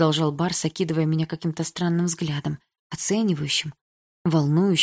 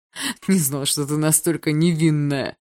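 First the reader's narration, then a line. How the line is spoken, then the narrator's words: Mocking drawl. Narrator (Russian): протянул он насмешливо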